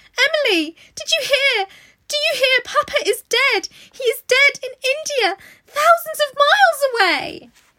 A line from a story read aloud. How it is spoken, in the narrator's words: cried out wildly